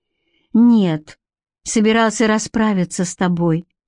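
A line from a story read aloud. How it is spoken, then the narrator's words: Calm explanation. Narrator (Russian): спокойно объяснила Бренна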